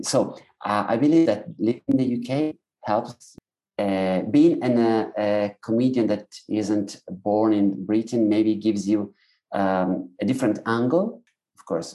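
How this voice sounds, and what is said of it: Italian accent in English. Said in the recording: “you are the one with a distinctive accent. But my Italian accent”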